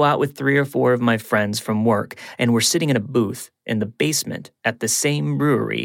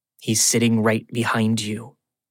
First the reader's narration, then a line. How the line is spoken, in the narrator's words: she says quietly